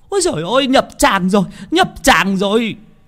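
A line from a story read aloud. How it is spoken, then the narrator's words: Women shrieking. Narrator (Vietnamese): mấy bà đàn bà con gái thì rú lên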